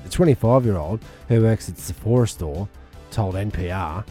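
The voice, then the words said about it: Put-on Australian accent. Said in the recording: “I'll read it out in an Australian accent.”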